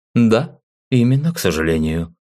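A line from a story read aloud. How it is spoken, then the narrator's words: Sad sigh. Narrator (Russian): вздохнул печально он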